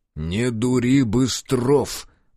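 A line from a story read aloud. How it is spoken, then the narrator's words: Through gritted teeth. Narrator (Russian): процедил сквозь зубы Лыков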